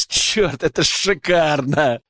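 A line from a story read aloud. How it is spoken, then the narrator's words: Laughing. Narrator (Russian): Засмеялся я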